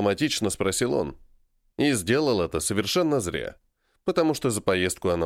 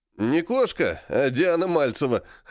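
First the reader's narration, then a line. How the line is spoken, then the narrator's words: Chuckle. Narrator (Russian): хохотнул Игорь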